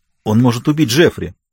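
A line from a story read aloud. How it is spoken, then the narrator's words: Sharp reply. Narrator (Russian): резко ответила Йоханна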